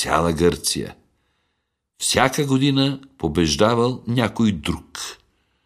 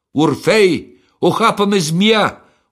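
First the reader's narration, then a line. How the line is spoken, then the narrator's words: Dying cry. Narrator (Bulgarian): успяла да извика тя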